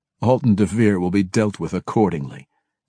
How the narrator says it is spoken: Deenan chuckled

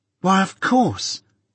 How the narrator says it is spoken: cried Biddy with an exultant face

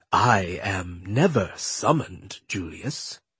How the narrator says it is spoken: the man purred

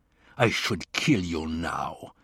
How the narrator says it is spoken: he said, snarling

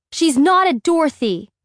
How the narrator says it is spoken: Sam shouts at him

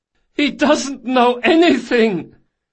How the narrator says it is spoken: The last prisoner, as yet untouched, hollered at the top of his voice

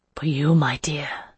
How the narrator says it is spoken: whisper

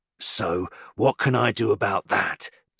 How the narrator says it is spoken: Deacon snarls

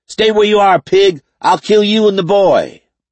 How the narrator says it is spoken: the man shouted

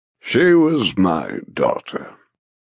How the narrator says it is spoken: he confesses with a deep sigh

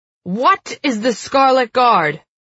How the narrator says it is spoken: the silver yells into his face

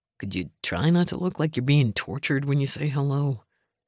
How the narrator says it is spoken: Cope mumbled

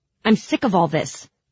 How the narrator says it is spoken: I said angrily

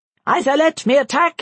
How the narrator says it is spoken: he shouted

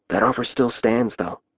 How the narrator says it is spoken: I whispered

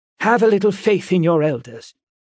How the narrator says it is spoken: snapped Miss Avocet

